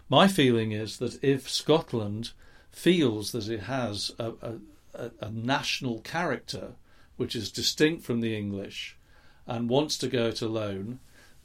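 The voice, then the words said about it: English accent. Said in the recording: “because I'm English, you can hear that in my accent”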